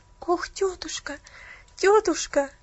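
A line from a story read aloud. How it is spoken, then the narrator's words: Tearful pleading. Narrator (Russian): взмолилась Поллианна со слезами на глазах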